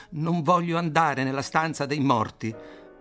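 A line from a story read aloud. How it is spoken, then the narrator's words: Low cry, torn lung. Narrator (Italian): egli grida a bassa voce col suo polmone lacerato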